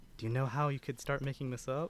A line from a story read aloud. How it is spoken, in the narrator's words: whispers to Victoria